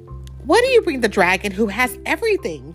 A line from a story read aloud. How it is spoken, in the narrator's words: Tiny Bear said